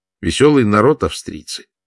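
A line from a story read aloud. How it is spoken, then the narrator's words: Sad smiling. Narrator (Russian): грустно улыбнулся Даниэль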